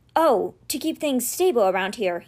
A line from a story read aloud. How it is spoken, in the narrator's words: he muttered